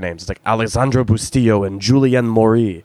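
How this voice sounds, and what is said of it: French names in put-on French accent. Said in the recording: “I don't know how to pronounce it, so I say it with a French accent.”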